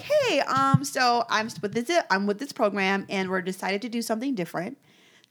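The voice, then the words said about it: Imitated white girl voice. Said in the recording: “imagine me, a white girl ... my white girl voice”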